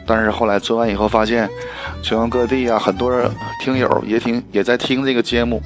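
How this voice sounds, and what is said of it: Noticeable Northeastern Chinese accent. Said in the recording (Chinese): “像我这个声音，大家听到了这个，呃，明显的东北口音，呃，音色也不是很好啊”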